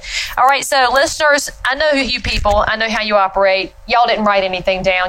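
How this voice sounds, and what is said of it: Speaks with a noticeable regional accent. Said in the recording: “you're laughing at my accent like you do”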